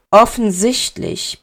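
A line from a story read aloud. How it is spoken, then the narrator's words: Grumbled. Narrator (German): brummte Severus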